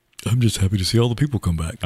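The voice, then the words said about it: Imitates another person's voice. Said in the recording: “that's my Jay impersonation... That is your Jay impersonation.”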